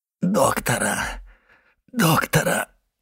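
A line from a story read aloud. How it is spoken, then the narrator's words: Moaning. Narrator (Russian): простонал Кадрус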